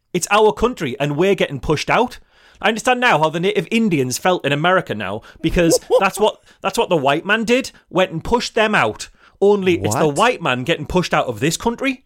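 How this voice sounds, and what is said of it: Teesside English accent. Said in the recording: “where I grew up, in the area around the River Tees ... I can actually give you this in the accent that I had growing up”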